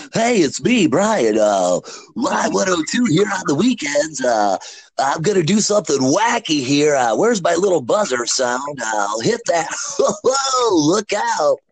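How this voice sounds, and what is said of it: Imitates a radio DJ's voice. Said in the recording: “I missed that impression. ... I haven't pulled out the Brian Goodnow in a long time.”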